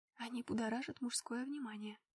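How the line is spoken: Whispering. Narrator (Russian): шепнула

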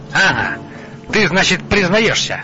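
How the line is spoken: King shouting. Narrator (Russian): закричал король

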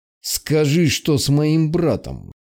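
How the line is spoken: Demand through gritted teeth. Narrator (Russian): Сквозь зубы потребовал я

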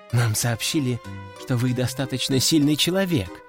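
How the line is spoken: Hesitant. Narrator (Russian): неуверенно проговорила Маша

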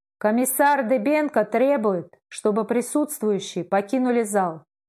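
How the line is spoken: Loud in hushed hall. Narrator (Russian): в притихшем зале громко прозвучало

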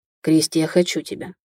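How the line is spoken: Breathed close, half-warning, half-asking. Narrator (Russian): выдохнул мне в затылок, то ли предупреждая, то ли спрашивая

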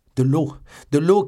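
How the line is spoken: Shouting. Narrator (French): criait D'Artagnan

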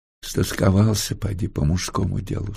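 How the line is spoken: Affectionate tender voice. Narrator (Russian): сказала она ласково

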